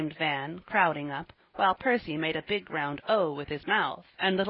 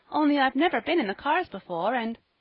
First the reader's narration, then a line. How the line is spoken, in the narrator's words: said Polly, brightly, with a merry little laugh